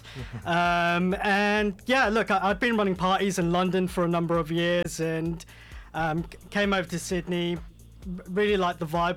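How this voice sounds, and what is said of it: British accent. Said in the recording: “fresh off the boat from the UK. You can probably hear from the accent.”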